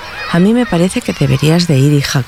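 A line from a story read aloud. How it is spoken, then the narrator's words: Plain. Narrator (Spanish): contestó la mamá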